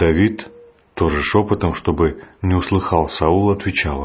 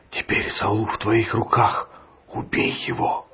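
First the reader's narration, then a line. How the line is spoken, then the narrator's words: Whispering friends. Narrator (Russian): друзья Давида шепотом говорили ему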